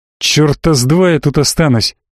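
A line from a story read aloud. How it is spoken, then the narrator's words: Angry growl. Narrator (Russian): прорычал я, здорово разозлившись на тифлинга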